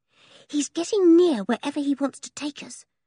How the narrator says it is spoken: whispered William

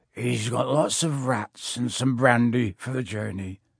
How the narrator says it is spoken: said Hagrid in a muffled voice

